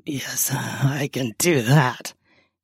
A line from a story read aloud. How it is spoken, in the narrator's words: he says with a chuckle